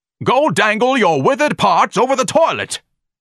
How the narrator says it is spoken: Ignatius screamed savagely

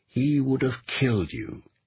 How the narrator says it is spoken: Eric said in a quiet voice

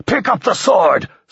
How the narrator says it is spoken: screamed Bertol

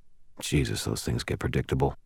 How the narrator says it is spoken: I muttered

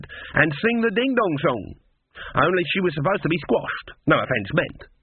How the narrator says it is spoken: he added quickly

